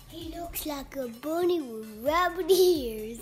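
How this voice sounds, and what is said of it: Child speaking in an odd accent. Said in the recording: “Why are you talking that accent, you weirdo?”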